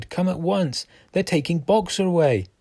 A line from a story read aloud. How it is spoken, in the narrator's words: shouted